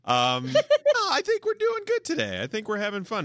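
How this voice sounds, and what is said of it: Falsetto voice. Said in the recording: “just did the falsetto thing again.”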